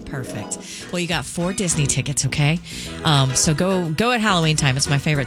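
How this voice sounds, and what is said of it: Voice with a slight cold. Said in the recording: “I've got a little bit of a cold today.”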